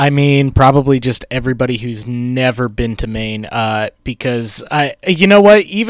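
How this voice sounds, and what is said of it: Usual voice. Nothing is said of it.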